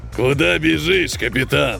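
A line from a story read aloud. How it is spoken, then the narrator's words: Growled. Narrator (Russian): прорычал он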